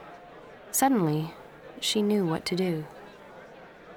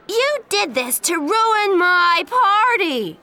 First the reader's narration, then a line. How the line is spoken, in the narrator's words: she shouted